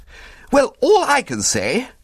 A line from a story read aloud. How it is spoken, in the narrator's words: he cried